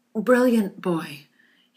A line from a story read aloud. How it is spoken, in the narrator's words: he pants